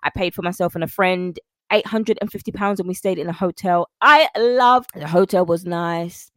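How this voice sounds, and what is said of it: London English accent. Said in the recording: “as you can hear, I'm a Londoner. I'm from London, born and raised in the UK ... People were like, I love your accent.”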